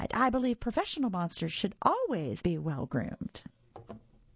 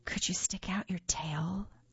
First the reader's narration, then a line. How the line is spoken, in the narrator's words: I whispered